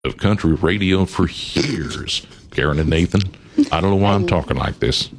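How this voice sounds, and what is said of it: Put-on country twang. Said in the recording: “I love the twang”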